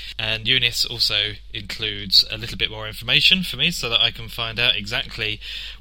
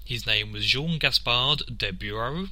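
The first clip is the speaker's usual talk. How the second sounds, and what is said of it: Put-on French accent. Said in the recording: “my French accent is superb”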